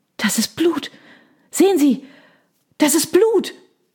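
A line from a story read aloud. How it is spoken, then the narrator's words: Gasping from behind. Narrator (German): keuchte jemand in der Reihe hinter uns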